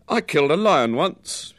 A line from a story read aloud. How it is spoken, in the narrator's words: said in a loud voice